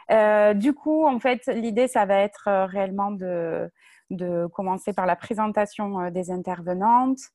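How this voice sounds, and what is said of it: Strong southern French accent. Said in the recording (French): “avec un très fort accent du sud.”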